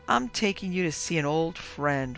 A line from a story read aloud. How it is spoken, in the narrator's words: rasped my uncle